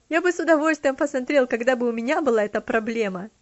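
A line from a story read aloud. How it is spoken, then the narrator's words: Laughing reply. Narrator (Russian): смеясь, ответил он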